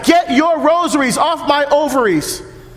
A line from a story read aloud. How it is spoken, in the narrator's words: They're yelling